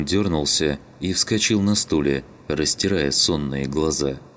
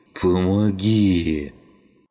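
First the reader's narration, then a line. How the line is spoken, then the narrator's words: Moaning. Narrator (Russian): Снова простонал вернувшийся на станцию убийца скинхеда Шума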